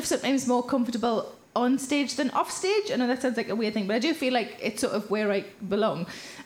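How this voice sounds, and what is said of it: South Shields Geordie accent. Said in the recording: “I recognise your accent, where are you from? And I say, oh, I'm from South Shields.”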